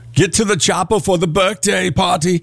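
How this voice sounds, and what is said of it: Arnold Schwarzenegger impression accent. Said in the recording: “Can I do an accent? ... Arnold Schwarzenegger”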